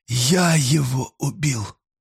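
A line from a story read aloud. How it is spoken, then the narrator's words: Moaning. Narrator (Russian): простонал Ройл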